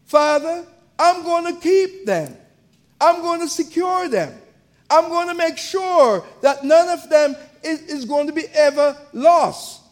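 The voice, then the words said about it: Jamaican accent. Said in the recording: “as you hear my accent, I was born in Jamaica”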